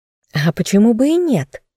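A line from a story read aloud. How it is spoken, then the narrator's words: Ironic exclamation. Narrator (Russian): иронично воскликнула главный историк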